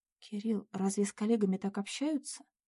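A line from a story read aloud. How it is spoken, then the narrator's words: Strained, forced out. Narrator (Russian): смогла выдавить из себя Надя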